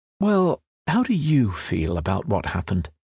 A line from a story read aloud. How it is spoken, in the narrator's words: the therapist is most likely to ask, in a caring voice